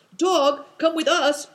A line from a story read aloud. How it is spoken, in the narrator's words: cried Christian and Big Tiger